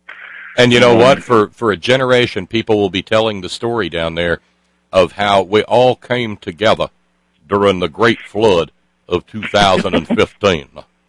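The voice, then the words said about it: Rural Southern US accent. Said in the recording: “my cornpone accent”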